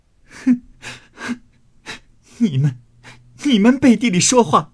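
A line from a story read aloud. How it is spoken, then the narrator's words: Angry, crying. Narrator (Chinese): 平儿气切，哭道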